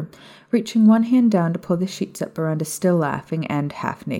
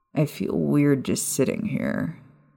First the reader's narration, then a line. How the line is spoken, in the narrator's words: Peter mumbled